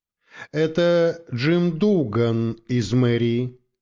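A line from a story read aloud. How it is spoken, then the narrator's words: Plain. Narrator (Russian): сказал я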